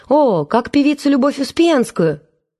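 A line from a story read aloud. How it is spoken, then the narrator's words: Joyful exclamation. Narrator (Russian): новый знакомый радостно восклицал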